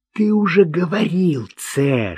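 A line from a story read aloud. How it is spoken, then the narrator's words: Whispered. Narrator (Russian): шепнул Марк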